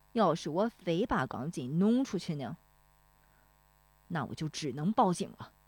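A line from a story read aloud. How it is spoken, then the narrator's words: Angry. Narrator (Chinese): 大棒槌恼怒了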